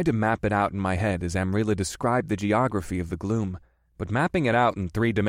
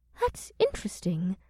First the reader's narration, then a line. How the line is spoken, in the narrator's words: the elven woman said in a thoughtful voice